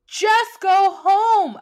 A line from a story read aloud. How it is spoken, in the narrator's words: I shouted